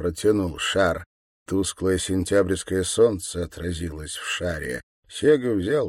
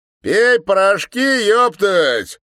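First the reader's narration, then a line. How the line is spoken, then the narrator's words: Loud advice. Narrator (Russian): громко посоветовал сопля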